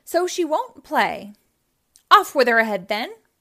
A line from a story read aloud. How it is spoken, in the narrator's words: cried the queen